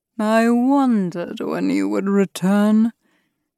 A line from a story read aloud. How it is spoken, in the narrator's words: chuckled